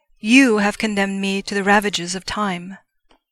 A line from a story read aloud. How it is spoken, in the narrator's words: he roared at them